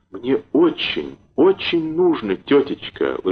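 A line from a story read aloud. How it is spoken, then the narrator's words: Falsely sweet. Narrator (Russian): лживо-ласковым голосом сказал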